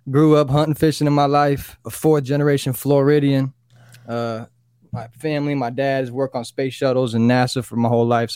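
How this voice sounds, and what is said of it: Southern US country twang. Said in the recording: “little country twang to us down here in the South”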